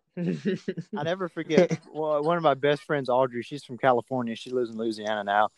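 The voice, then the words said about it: Southern US accent. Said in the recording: “with that accent? ... some dude with a southern accent”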